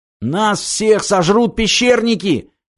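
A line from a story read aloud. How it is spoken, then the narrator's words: Shouting. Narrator (Russian): крикнул Виктор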